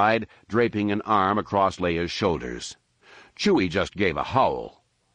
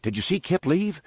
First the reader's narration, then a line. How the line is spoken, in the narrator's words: Anakin asked excitedly